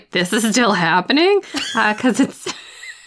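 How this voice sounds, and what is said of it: Imitates another person's voice. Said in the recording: “bad Alice impression”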